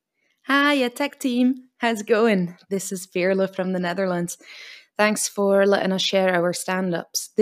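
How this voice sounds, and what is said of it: Dutch-Scottish accent. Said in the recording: “one of the most beautiful voices in the world, I think, a Dutch Scottish accent”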